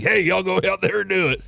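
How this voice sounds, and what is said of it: Imitated sports coach voice. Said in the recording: “That's a pretty good coach impression.”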